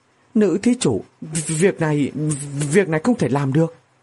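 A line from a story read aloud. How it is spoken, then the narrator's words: Trembling. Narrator (Vietnamese): run run nói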